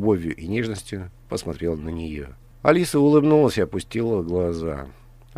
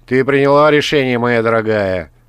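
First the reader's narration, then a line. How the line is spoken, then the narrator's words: Rough question. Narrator (Russian): грубо спросил он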